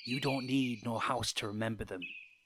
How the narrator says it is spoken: he said softly

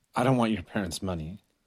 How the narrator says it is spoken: he muttered

